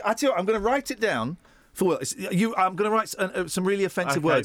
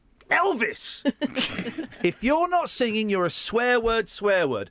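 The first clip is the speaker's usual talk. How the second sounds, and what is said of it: Broad northern English accent. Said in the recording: “he says in a broad northern accent”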